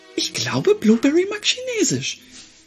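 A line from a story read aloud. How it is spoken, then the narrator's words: Giggling. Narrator (German): Helena kicherte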